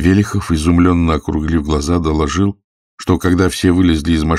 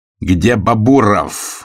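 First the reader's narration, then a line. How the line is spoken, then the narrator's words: Furious bark. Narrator (Russian): уже яростно гаркнул он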